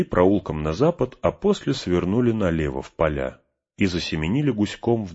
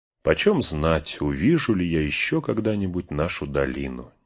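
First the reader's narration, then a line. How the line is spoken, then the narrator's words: Quiet. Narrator (Russian): негромко проговорил он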